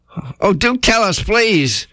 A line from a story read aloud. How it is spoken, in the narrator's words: cried Kanga